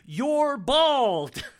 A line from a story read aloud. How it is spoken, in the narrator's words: Elaine explodes, yelling